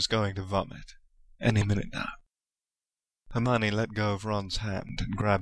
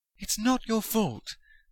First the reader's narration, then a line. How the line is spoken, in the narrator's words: she said desperately